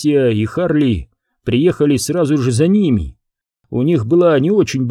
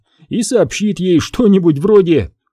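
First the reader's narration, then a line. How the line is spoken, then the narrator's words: Cheerful guess. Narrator (Russian): весело предположил Харли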